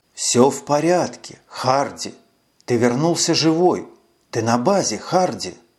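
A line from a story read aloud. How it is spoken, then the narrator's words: Slow, gentle, soothing. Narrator (Russian): Он говорил медленно и ласково, словно утешая испуганного ребенка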